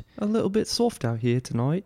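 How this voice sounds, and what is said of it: Put-on New Zealand accent. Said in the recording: “we can do this whole podcast in this accent. ... From New Zealand, mate.”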